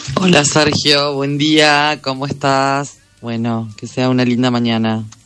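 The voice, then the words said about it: Sweet, radio-announcer-like voice. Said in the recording (Spanish): “la dulce voz de ... Tiene voz de locutora”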